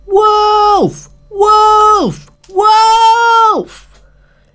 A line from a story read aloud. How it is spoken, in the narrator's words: he shouted down the mountain